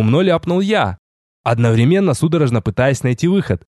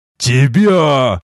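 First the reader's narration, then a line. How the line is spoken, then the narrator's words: Thunderous yell. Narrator (Russian): громогласно заорал тот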